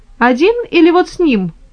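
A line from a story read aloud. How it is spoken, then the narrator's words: Laughing. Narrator (Russian): Лоренцо засмеялся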